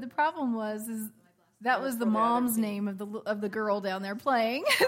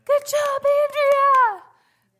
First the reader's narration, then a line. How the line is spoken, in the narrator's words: one of the grandparents, the grandma, kept yelling